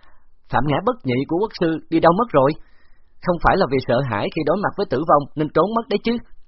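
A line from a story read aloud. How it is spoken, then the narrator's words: Mocking loud laugh. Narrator (Vietnamese): Khấu Trọng cười lớn rồi hỏi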